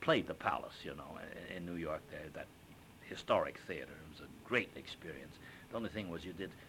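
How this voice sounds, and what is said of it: Usual voice. Nothing is said of it.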